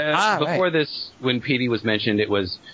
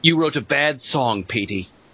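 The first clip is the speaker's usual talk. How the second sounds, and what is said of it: Sean Bean impression. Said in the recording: “What accent was that? Was that his Sean Bean ... That's my Sean Bean.”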